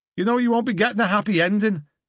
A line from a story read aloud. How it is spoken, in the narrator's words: he shouted